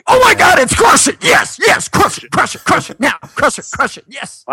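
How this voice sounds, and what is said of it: Excited, enthusiastic imitation of another person. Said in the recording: “That was my Gary impression ... That is how he talks ... excited”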